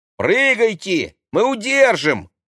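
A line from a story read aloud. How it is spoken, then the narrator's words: Shouting. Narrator (Russian): крикнул Максим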